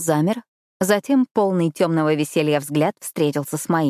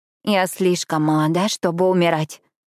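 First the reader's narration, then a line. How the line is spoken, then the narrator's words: Moaning. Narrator (Russian): простонала я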